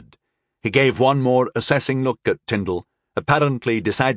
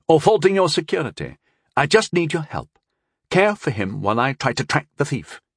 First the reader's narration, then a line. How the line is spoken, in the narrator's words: Rondell said quickly